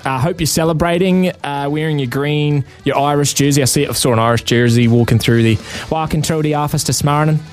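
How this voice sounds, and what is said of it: Put-on Irish accent. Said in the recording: “You can let me know if you like my accent or if you think I'm way off the mark.”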